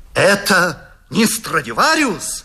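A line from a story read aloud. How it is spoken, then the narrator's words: Admiring exclamation. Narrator (Russian): воскликнул восхищенный Паганини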